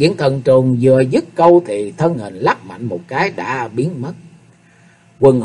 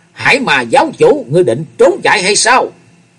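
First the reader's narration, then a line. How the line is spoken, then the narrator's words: Hissing shriek. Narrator (Vietnamese): Hắc Diện thần trùng rít lên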